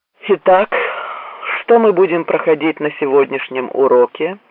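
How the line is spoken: Weary. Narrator (Russian): устало произнес Долинг

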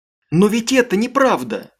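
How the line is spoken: Woman exclaiming. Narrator (Russian): воскликнула Аманда

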